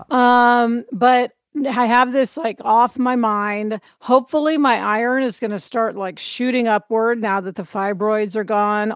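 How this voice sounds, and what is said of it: Slightly hoarse voice. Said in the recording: “my voice is a little hoarse actually from the surgery”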